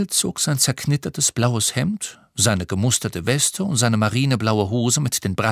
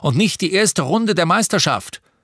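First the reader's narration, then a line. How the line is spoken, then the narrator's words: Shouted from the bathroom. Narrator (German): brüllte Papa aus dem Badezimmer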